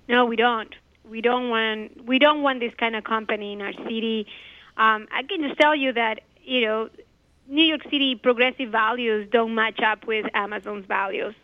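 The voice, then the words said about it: Hoarse, strained voice. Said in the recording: “I lost my voice”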